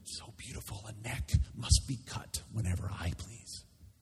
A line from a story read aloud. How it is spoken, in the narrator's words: Caligula whispering